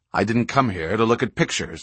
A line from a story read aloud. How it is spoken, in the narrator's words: Locke snapped